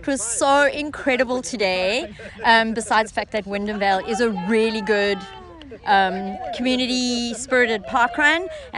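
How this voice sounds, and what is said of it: Slight South African accent. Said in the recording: “I'm sort of detecting a slight accent. I'm figuring it's not from south of Wyndham Vale anyway. ... I come from South Africa, Cape Town, South Africa”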